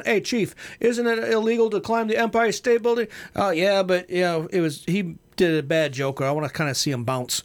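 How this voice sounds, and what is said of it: Put-on Brooklyn New York accent. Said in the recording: “Here's my New York Brooklyn accent.”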